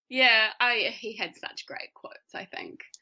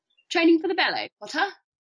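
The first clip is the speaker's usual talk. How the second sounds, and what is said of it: Put-on British accent. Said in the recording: “that's a fantastic British accent.”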